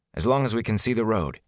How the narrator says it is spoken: he said

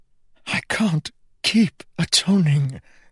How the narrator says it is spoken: Kell whispered into the king's shoulder

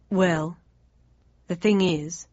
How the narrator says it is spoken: he went on slowly

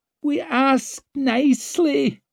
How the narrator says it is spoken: whined Dancer

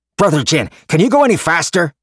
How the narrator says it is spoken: Gojen asked excitedly

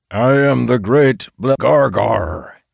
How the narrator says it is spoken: he roared

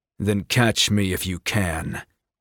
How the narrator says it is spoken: he growled

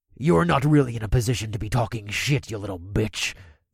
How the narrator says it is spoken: the orc growled

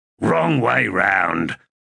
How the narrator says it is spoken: Gessler snarled

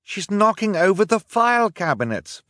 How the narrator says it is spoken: Violet cried

